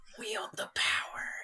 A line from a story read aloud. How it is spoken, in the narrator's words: it whispers